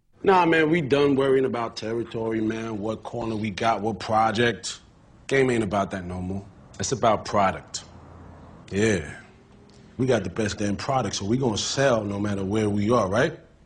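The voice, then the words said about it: Black American Baltimore accent. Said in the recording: “That black American accent with overtones of Baltimore”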